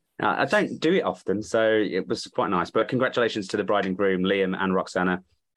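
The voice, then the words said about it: Slightly hoarse voice. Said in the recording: “a bit of a hoarseness to my voice ... imbibed too many drinks”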